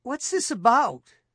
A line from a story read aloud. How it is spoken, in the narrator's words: His voice sounded almost childlike to his ears